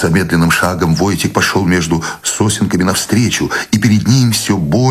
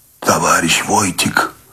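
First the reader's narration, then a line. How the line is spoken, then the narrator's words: Strained hoarse wheeze. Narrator (Russian): Человек прохрипел, не бросая ноши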